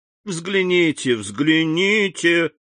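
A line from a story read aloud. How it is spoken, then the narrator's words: Laughing. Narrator (Russian): отвечал, смеясь Максимилиан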